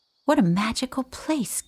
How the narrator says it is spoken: Kitty exclaimed, delighted

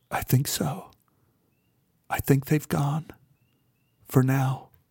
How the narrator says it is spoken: Beth whispered

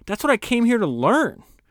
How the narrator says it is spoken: Bill cried out

